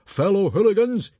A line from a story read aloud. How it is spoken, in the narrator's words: he bellowed